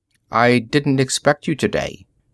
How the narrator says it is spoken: Bprith said in an expressionless voice

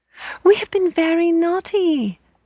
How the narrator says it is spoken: they cried

